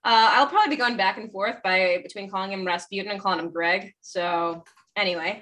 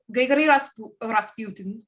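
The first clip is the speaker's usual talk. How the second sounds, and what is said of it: Attempted Russian accent. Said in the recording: “That's my attempt at a Russian accent.”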